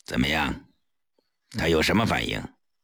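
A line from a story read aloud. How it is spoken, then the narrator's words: Cold question. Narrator (Chinese): 他冷冷地问顾青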